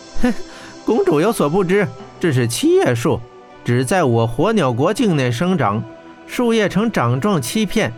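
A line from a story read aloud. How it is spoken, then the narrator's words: Laughing. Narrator (Chinese): 黄立豹笑道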